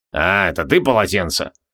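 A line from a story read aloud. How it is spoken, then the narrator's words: Unsurprised grumble. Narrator (Russian): пробурчал маг, нисколько не удивившись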